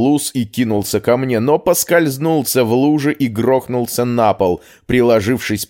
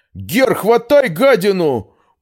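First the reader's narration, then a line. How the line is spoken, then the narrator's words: Injured moaning. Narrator (Russian): простонал пострадавший своему напарнику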